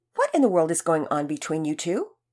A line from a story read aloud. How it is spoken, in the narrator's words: called out loudly